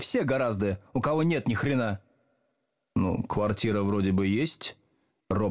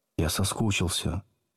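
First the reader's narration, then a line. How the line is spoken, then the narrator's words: Apologetic whisper. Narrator (Russian): извиняясь, прошептал Слушкин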